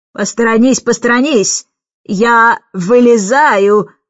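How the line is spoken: Booming voice. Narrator (Russian): снова прогремел тот же голос

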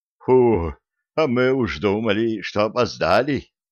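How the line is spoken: Relieved exhale. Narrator (Russian): Облегченно выдохнул Соловей-разбойник, увидев Виталика живого и здорового

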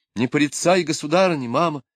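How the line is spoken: Exclaiming. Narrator (Russian): воскликнула Аделина

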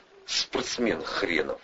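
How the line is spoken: Scornful snort. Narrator (Russian): фыркнул Атасов

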